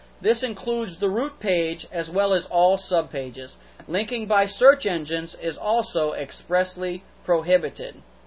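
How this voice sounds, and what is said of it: Southern American accent. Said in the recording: “I read that as clearly as I could with my southern accent.”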